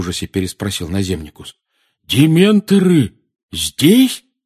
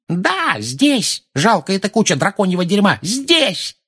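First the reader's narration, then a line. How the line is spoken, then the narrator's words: Yelling. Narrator (Russian): заорала миссис Фиг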